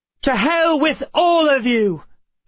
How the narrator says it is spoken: Emma shouted

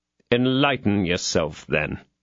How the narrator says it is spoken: said Athos coldly

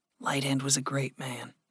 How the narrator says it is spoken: Gregory said softly

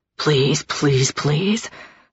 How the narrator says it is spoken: Aspen whispered

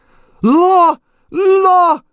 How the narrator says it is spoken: she shrieked after us

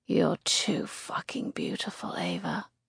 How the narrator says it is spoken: he purrs

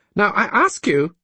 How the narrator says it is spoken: she said almost testily

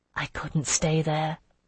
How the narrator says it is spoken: I whispered

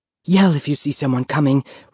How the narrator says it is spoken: said breathlessly

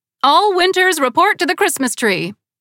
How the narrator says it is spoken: Victoria's face brightened and she hollered

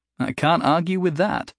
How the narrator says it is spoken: Jason said with a laugh

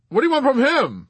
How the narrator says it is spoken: Yossarian called out

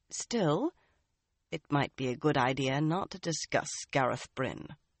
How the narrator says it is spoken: in a careful tone

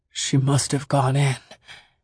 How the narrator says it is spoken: he said on a whisper

